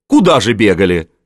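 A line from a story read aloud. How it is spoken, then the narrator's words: Grunted. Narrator (Russian): хмыкнул Овцин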